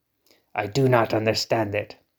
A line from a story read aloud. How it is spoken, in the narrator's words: he muttered